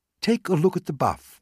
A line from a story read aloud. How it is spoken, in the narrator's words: Wilson said